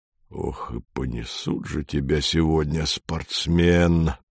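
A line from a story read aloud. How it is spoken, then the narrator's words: Quiet but energetic. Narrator (Russian): сказал Панин негромко, но очень энергично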